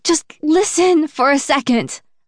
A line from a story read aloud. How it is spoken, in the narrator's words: I plead, interrupting